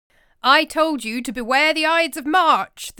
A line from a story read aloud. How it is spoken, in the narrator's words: the soothsayer shouts at Caesar